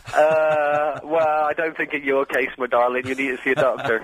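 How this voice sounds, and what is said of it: Put-on Cornish regional accent. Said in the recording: “I love these little local accents you do, the regional accents ... Listening to the Radio Cornwall when I was a boy”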